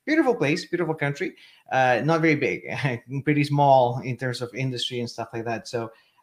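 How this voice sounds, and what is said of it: Chilean Spanish-accented English. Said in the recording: “As you can tell from the accent, I'm not originally from North America. I was born and raised in Chile, in South America.”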